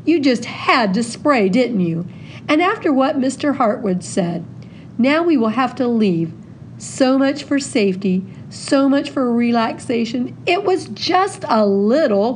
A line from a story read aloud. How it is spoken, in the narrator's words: cried Hawthorne